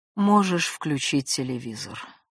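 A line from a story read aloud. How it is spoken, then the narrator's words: Dejected, downcast voice. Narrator (Russian): разрешаю я упавшим голосом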